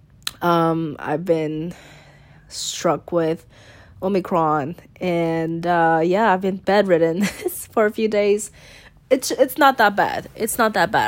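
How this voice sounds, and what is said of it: Sick-sounding voice. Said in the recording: “I'm actually sick. I think you can hear it in my voice.”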